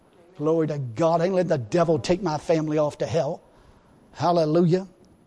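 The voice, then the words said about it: Angry, forceful preaching. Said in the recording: “if I sound a little angry about it, I am”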